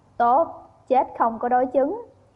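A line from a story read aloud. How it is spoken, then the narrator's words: Quiet inward chuckle. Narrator (Vietnamese): Chữ Thiệu Lăng thầm cười khẽ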